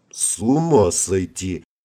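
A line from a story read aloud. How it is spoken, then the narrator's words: Dazed mutter. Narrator (Russian): ошалело пробормотал генерал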